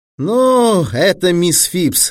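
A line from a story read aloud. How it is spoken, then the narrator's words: Disappointed drawl. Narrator (Russian): разочарованно протянул Шерман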